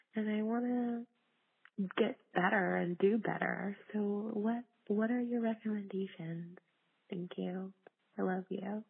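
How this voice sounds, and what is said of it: Whispering. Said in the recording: “Why is she whispering? She's what she's telling us a little secret.”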